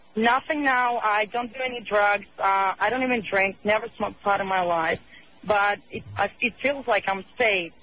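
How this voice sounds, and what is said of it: Russian accent. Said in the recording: “Are you Norwegian or something? What is your accent? ... I'm Russian.”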